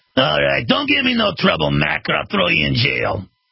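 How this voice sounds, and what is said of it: Put-on New York tough-guy accent. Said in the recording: “A thug in New York might talk like this.”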